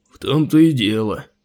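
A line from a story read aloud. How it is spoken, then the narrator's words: Gloomy low rumble. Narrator (Russian): мрачно прогудел Андрон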